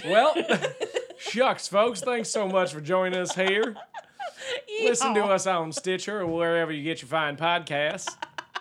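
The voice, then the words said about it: Put-on folksy accent. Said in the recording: “I don't know how to say Charles Miller in this accent.”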